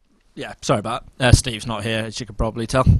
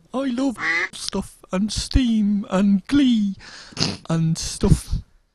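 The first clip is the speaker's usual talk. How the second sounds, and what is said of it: Camp imitation of another person's voice. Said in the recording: “This is my really camp Steve impression.”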